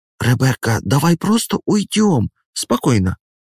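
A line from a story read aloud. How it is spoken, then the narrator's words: Frightened whisper. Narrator (Russian): шепчет Эмили, испуганно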